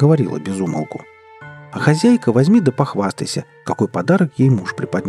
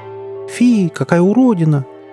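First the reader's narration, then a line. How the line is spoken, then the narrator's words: Disgusted exclamation. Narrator (Russian): брезгливо поджав губы, воскликнула она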